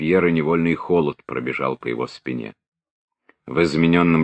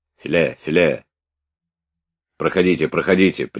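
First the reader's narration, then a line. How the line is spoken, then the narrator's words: Stern, repeated muttering. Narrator (Russian): приговаривал капитан, строго хмурясь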